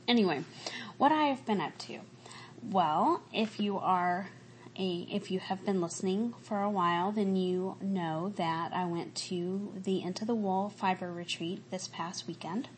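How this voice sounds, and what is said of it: Slight Southern American accent. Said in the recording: “I may sound a little bit different ... The longer I stay in the South, the more my accent from when I was a kid comes back. And I can definitely hear it”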